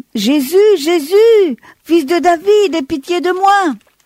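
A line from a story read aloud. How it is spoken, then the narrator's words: Shouting even louder. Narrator (French): il crie encore plus fort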